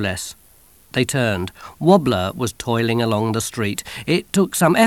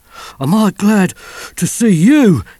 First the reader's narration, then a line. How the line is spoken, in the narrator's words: he panted